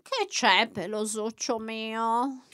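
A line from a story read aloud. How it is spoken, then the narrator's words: Sleepy voice. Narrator (Italian): chiese la signora Troll con la voce ancora assonnata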